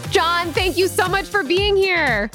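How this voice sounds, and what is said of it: Polished podcast-host voice, raised pitch. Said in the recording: “you have mastered that podcast voice. I feel like it goes to another octave right there.”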